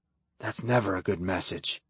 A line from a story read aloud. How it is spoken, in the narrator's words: Kyle hissed when he felt the invasion from the needle as sharp pressure